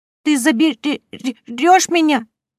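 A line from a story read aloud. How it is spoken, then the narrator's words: Stammering, pleading. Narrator (Russian): заикаясь, умоляет меня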